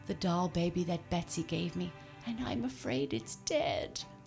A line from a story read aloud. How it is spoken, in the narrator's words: poor Jimmy Scarecrow sobbed